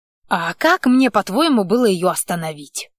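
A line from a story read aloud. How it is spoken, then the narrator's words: Snapped retort. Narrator (Russian): огрызнулся Кририк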